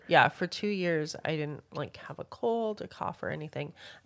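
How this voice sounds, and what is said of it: Congested, stuffed-up voice. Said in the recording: “why I sound ... congested. ... I was stuffed up”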